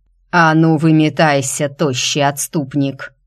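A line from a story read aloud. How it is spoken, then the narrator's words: Growled. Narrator (Russian): прорычал Царк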